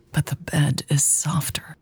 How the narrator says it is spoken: whispered

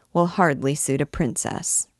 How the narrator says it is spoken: said, somewhat dryly

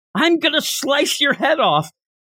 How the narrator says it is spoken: somebody yells off into the distance

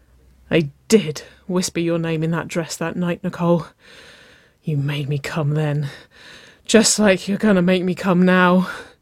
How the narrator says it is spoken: Waverley gasped

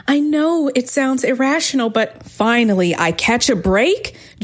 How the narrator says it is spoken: Julian shouted

